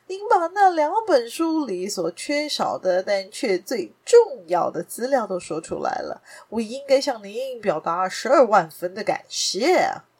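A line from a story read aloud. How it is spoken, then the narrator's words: Hearty laughter. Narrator (Chinese): 画家维尔蒙哈哈大笑地站了起来……说道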